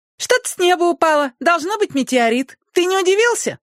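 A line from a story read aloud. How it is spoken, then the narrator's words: Joyful squeaky machine voice. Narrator (Russian): радостно запищала машинка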